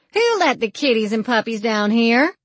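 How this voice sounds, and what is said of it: Raised, loud voice. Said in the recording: “Raising my voice”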